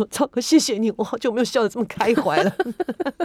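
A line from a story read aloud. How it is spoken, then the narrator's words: Smiling, grateful. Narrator (Chinese): 笑， 跟赵哥说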